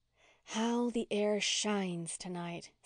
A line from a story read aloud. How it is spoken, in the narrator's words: said Walter dreamily